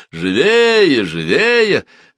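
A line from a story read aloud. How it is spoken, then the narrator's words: Shouting. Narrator (Russian): закричал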